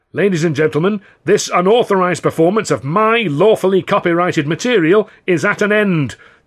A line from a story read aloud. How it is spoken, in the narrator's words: the governor bellowed